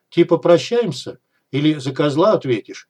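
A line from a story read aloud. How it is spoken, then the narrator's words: Chuckling. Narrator (Russian): сталкер хохотнул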